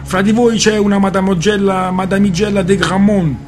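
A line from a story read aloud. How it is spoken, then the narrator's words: Shouting. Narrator (Italian): gridò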